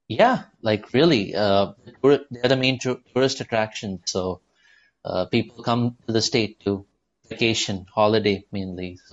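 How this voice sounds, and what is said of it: Speaks with a mixed accent. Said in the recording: “why I have an accent ... I grew up in the U.S. as a kid and then moved back to India as a teenager”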